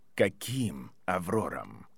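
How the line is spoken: Even, level voice. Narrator (Russian): сказал Северус ровным голосом

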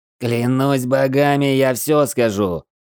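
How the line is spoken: Roaring. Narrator (Russian): взревел генерал

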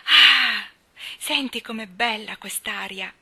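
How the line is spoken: Emphatic exclamation. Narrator (Italian): esclamò con enfasi Mary

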